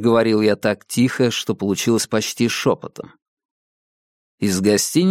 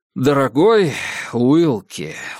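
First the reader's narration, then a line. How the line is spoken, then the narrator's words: Sighing. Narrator (Russian): вздохнул Диккенс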